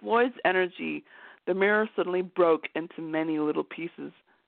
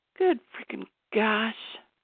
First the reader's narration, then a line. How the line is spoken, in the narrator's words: muttered